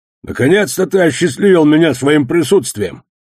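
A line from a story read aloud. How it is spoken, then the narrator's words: Gruff bark. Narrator (Russian): рявкнул одноглазый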